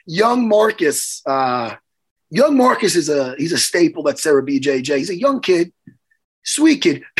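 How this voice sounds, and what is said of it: Hoarse, strained voice. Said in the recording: “I'm getting my voice back ... my voice is still fucking shot, man ... Why is your voice shot? Oh, from the fights.”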